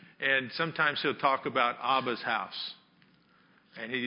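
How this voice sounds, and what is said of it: Usual voice. Nothing is said of it.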